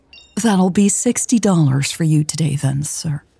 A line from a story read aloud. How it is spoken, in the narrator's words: she said, her tone warm